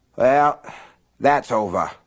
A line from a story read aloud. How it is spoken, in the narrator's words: Aunt Evie had said in her cigarette raspy voice